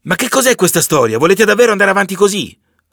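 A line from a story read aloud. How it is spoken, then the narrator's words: Shouting to crowd. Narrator (Italian): Urla verso la folla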